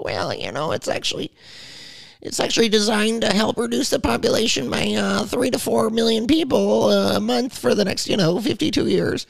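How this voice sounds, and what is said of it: Imitates another person's voice. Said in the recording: “my very good Bill Gates impression.”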